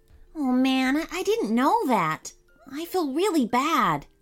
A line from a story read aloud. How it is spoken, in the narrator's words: Seth said sadly